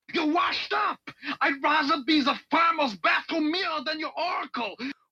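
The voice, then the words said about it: German accent, somewhat Austrian-sounding. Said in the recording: “Why does he have a German accent?... That sounded more Austrian to me... It did sound a little Austrian”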